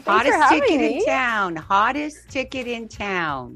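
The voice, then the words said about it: Imitates another person's voice. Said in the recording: “That's my Donovan Workin impersonation.”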